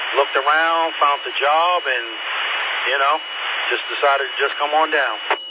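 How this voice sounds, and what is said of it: New York accent. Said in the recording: “Pretty proper, New York City. I can tell by your accent. It sounds like you're from near there anyway.”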